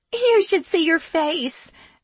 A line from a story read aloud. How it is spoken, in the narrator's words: the little pixie said between racks of laughter